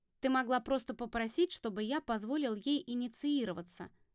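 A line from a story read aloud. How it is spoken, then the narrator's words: Plain. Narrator (Russian): ответил Гром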